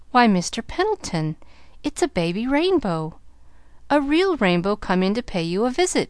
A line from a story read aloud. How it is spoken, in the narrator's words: exclaimed